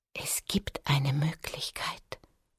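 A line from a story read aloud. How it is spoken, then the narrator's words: Whisper. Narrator (German): flüsterte sie schließlich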